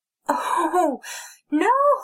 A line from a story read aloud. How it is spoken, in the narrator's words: Snow wailed